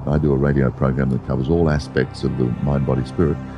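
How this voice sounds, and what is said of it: Polished, broadcast-quality speaking voice. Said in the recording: “you have an excellent radio voice.”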